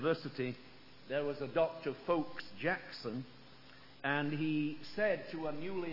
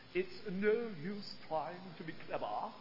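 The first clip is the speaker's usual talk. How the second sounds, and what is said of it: Put-on Cambridge English accent. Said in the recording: “I can almost hear this Cambridge accent.”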